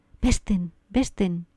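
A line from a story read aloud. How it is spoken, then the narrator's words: Murmured. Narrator (Spanish): murmuró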